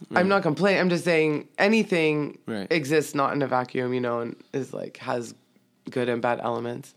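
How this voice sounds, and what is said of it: Sick, dry scratchy voice. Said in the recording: “I'm so sick. I'm, like, a little under the weather. I caught a little flu, and so my voice is a little crazy ... It's, like, so dry and scratchy”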